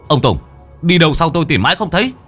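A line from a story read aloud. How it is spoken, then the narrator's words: Shout. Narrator (Vietnamese): Có tiếng của Mò Sùng quát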